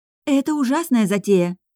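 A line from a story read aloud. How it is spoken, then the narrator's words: Exclamation. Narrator (Russian): воскликнула Голия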